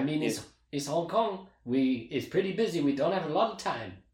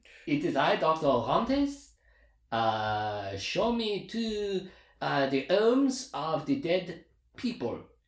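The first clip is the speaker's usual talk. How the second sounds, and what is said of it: Attempted French accent. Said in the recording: “You do your French guy for Dr. Orantes ... I forget how to do French.”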